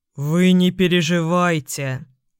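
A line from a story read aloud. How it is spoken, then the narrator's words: Deep booming bass. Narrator (Russian): прогудел староста густым басом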